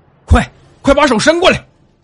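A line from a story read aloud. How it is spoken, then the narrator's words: Old man shouting urgently. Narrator (Chinese): 老道士对他大喊道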